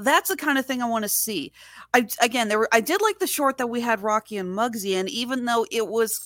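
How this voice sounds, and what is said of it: Usual voice. Nothing is said of it.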